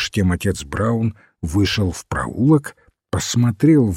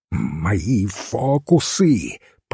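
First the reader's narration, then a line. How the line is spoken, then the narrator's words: Hissed. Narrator (Russian): прошипел его бледный соперник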